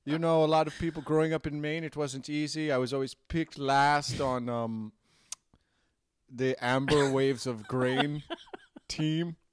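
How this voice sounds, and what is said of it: Put-on Maine-ish twang accent. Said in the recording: “Pardon my Maine-ish accent. I have a bit of a Maine-ish twang.”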